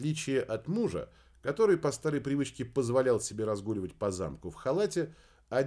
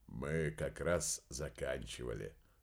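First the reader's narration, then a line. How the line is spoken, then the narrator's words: Soft. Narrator (Russian): мягко произнес Дердагентур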